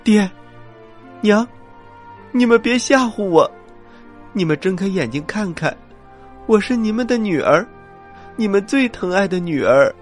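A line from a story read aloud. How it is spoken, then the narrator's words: Crying. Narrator (Chinese): 孟姜女哭着说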